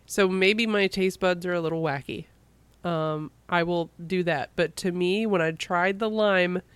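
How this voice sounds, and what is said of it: Sick-sounding voice. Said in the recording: “I'm still sick, as you can tell from my voice. ... really helped my throat”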